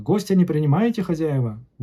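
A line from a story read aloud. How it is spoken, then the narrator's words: Shout from the doorway. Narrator (Russian): Крикнул он с порога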